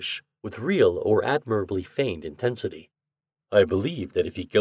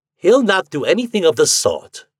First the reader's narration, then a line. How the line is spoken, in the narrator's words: I cried